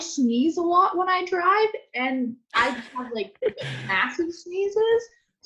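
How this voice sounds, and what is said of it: Noticeable accent. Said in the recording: “great accent, by the way.”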